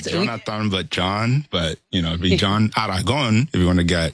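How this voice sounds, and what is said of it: Colombian Spanish accent. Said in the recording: “I love the accent that comes through. You're from Colombia”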